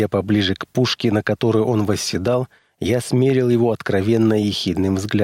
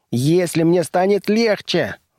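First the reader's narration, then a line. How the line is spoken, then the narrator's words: Indignant puffing yell. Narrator (Russian): завопил монстренок, пыхтя от негодования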